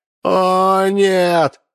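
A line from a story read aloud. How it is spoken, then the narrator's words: Shouted. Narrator (Russian): закричал академик Буерак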